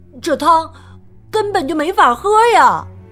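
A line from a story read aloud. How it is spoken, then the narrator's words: Shouting. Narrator (Chinese): 马丁叫道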